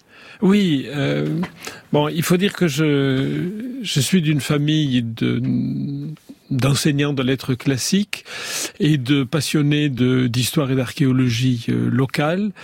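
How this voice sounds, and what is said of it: Southern French accent from the Aude. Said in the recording (French): “À 10 ans, dans l'Aude, on va reconnaître votre accent”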